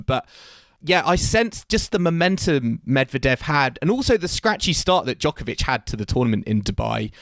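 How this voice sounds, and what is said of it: Voice sounds worn and unwell. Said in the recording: “As you can probably tell by my voice, I'm a little bit kind of worse for wear at the moment.”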